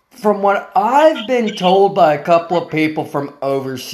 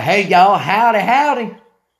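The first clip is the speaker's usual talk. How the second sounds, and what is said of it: Put-on Texan redneck accent. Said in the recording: “we all sound like we're from Texas. That's the accent ... all Americans are rednecks”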